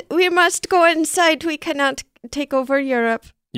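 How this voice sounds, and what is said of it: Put-on German accent. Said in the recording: “Your German accent is spot on.”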